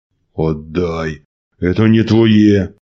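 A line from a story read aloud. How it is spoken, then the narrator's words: Growl. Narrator (Russian): прорычал Василий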